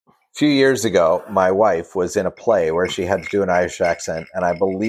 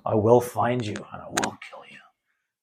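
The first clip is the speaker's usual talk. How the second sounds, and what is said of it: Liam Neeson impression. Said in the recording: “I can only do a Liam Neeson.”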